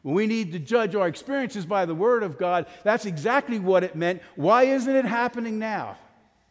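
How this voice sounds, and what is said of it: Yelling, raised loud voice. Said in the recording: “I'm yelling at you guys, but I'm yelling at myself too.”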